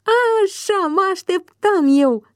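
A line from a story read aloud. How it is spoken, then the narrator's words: Delighted shout. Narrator (Romanian): strigă plin de încântare Ciprian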